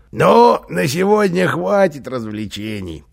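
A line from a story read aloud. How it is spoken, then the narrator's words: Speaking through laughter. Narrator (Russian): проговорил он сквозь смех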